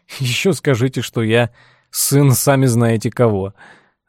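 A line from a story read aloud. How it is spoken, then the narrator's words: Laughing. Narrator (Russian): рассмеялся Тед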